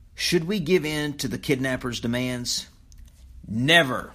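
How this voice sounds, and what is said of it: Soft then loud final word. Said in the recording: “I'm going to say a statement soft, and then I'm going to switch to loud ... raising my voice for the last word”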